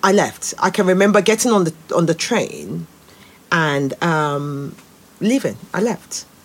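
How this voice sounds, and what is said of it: Nigerian accent. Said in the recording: “being a Nigerian because my accent is different”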